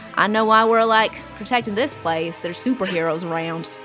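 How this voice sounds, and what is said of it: Attempted Southern US accent. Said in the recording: “Is that a Midwestern accent? ... That was my attempt at a Southern accent”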